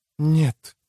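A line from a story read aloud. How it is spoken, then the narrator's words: Whisper. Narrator (Russian): прошептала Мэгги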